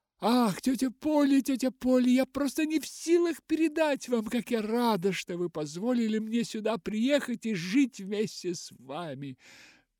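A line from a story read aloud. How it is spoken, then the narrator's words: Sobbing. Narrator (Russian): Всхлипывала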